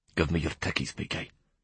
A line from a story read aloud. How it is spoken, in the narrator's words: he whispered